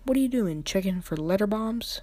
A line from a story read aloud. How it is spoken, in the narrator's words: He chuckled at his own joke